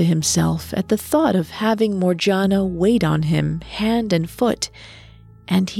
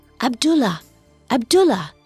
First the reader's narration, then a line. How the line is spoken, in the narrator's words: Morgiana whispered loudly